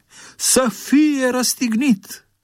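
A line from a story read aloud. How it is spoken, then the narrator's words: Shouting even louder. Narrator (Romanian): au început să strige și mai tare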